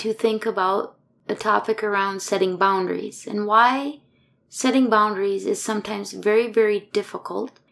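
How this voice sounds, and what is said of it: Emotionally worn-out, tired voice. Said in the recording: “You can probably hear it in my voice, but I'm kind of emotionally wore out”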